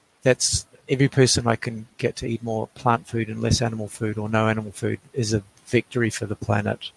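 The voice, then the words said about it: Australian accent. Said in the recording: “love your accent. Love could listen to it all day long.”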